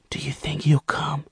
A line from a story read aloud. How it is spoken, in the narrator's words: she whispered